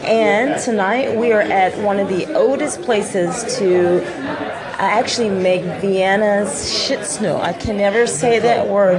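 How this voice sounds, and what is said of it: Slight Texas accent. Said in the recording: “I have a little Texas accent, so I have a hard time trying to pronounce it”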